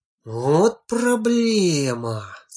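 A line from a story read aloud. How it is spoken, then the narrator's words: Musing aloud, sighing. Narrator (Russian): сказал Женька, словно размышляя вслух, и опять вздохнул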